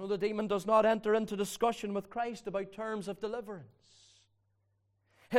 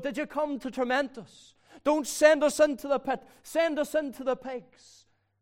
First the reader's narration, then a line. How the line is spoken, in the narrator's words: a demon-possessed man cried out